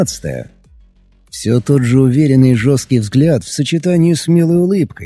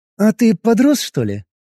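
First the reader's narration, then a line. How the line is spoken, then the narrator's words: Cheerful question. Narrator (Russian): весело спросила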